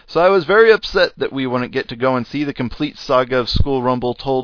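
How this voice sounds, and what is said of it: American English accent. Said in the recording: “if you didn't know by my accent, that's where I am ... Incomplete in America”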